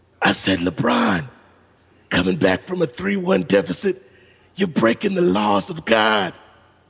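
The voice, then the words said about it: Joe Bell impression. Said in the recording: “terrible Joe Bell impression.”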